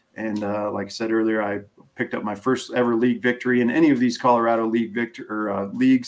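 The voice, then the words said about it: Hoarse, dry-throated voice. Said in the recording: “I don't know why I'm losing my voice ... Nothing worse than having a dry throat.”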